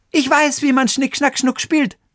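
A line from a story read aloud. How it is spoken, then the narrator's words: Calling out. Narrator (German): rief Xenia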